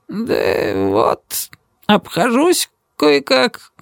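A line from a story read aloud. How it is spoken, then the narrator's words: Muttered, head lowered. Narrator (Russian): пробормотал он, опустив голову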